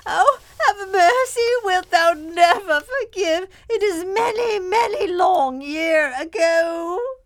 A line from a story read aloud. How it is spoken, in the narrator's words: Miss Furnival kept shrieking out